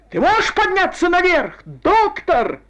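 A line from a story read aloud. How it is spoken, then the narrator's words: Shouting. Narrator (Russian): кричал капитан Финли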